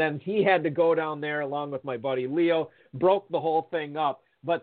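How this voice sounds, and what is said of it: Usual voice. Nothing is said of it.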